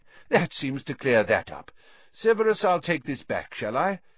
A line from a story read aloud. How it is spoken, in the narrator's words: said Lupin, looking around cheerfully